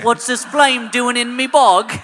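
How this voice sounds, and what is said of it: Put-on comic accent. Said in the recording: “I won a BAFTA award for that accent. ... you promised no accent work today”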